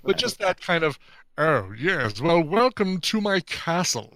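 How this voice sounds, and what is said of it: Nasal, over-the-top imitated voice. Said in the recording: “over the top nasally thing ... doing a pretty dead on impression of him. Like that is what that guy sounds like.”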